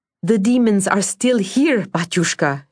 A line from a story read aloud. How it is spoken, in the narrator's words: she cried